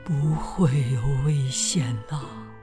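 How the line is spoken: Gentle, slow voice. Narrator (Chinese): 德拉夫拉星人用温柔的声音慢慢的说

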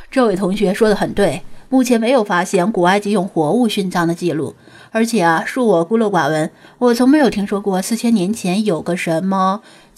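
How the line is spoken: Smiling. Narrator (Chinese): 罗老师点头笑道

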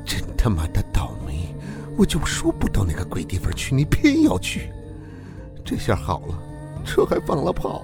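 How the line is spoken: Muttered cursing. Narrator (Chinese): 出租车司机 嘴里还低声骂着

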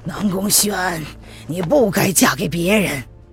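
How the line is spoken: Emotional murmur to oneself. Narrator (Chinese): 他红了眼睛，口中却是喃喃自语道

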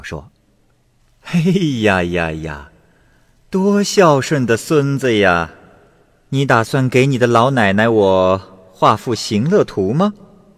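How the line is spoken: Laughing. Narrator (Chinese): 狐女笑道

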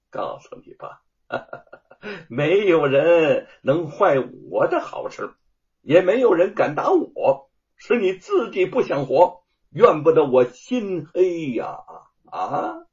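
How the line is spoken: Sinister laugh. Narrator (Chinese): 阴狠的笑道

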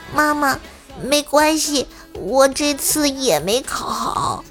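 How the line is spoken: Softly. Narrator (Chinese): 我也小声的对我妈说

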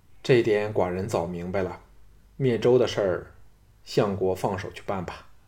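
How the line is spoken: Flat, indifferent. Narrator (Chinese): 庄襄王淡淡的说

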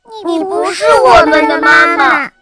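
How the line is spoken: Loud, group. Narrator (Chinese): 他们大声地说道

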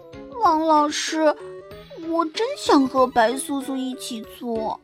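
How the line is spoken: Quiet muttering. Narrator (Chinese): 糖果果一边往前走，一边小声嘟囔

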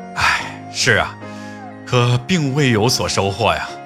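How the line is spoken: Sighing. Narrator (Chinese): 知府叹着气说

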